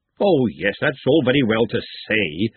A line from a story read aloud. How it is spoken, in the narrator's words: Glenda snapped